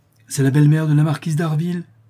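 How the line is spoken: Exclamation. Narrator (French): s'écria M

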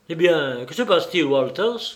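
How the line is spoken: Curt, dry tone. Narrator (French): demanda Baines d'un ton sec

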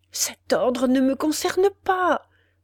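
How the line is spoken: Desperate stammering. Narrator (French): balbutia le désespéré prisonnier

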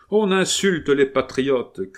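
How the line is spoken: Shout. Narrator (French): cria un troisième

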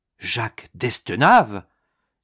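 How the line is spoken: Agitated exclamation. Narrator (French): s'écriait Mandrin avec émoi

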